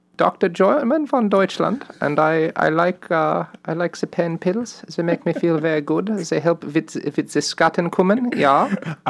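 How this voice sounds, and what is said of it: Put-on German accent. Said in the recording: “Is that your German accent? ... let me give it a shot.”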